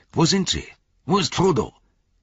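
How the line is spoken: Calling out. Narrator (German): rief Gimli

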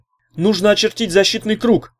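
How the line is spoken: Shout. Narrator (Russian): крикнул он ургу

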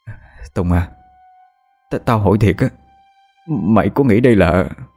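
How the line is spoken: Hesitant, stammering. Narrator (Vietnamese): Thằng Khánh ngần ngừ ấp úng nói

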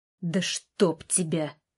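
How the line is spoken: Through clenched teeth. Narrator (Russian): процедил сквозь зубы

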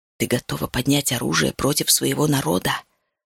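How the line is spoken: Hissing. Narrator (Russian): шипела она

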